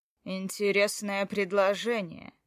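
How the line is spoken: Amused snort. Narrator (Russian): хмыкнул он

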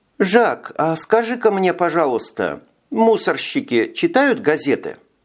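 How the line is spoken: Insinuating question. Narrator (Russian): вкрадчиво спросила Элеонора

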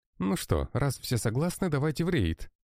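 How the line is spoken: Joyful exclamation. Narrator (Russian): радостно воскликнул Андрей

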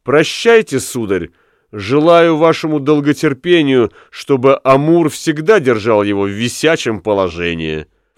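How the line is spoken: Shouted. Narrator (Russian): девушка крикнула

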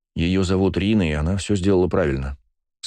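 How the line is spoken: Calm tone. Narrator (Russian): спокойным тоном произнес я

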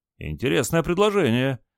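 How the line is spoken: Exclaimed after hesitation. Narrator (Russian): после небольшой заминки воскликнул

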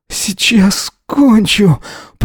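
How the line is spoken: Wheezing. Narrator (Russian): прохрипел

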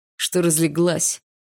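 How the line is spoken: Barked. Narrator (Russian): рявкнул Барс

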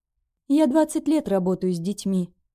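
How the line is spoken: Sighing. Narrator (Russian): Ольга Петровна вздохнула

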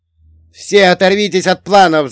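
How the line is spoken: Shouting. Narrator (Russian): закричал

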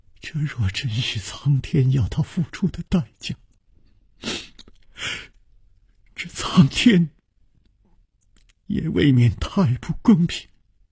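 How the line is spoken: Trembling voice. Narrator (Chinese): 秋灵素颤声说

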